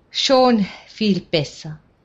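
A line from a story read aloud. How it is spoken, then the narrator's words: Small sigh. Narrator (German): mit einem kleinen Seufzer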